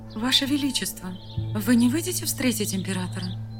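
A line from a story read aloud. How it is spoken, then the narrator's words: Timid question. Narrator (Russian): Робко спросила Шелена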